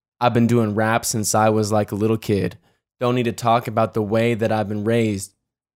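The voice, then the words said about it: Flat monotone rapping. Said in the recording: “I'm going to do it monotone.”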